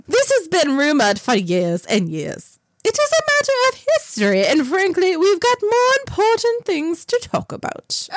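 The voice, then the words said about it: Put-on accent. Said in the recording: “say this in your accent.”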